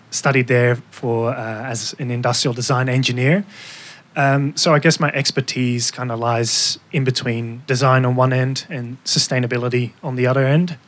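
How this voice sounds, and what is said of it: Dutch accent in English. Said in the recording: “By my name and my accent, you might have guessed that I am from the Netherlands.”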